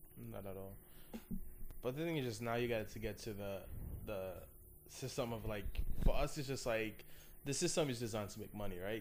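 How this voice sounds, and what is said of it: Speaks with a noticeable accent. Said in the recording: “my accent is going to come out a little bit”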